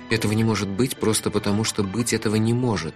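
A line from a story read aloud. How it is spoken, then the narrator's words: Muttering. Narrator (Russian): бормоча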